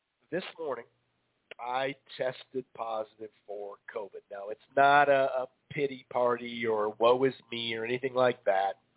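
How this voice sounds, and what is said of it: Voice sounds like a cold. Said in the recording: “if you hear my voice, kind of tell I have a cold.”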